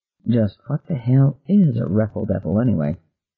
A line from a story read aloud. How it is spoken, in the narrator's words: muttered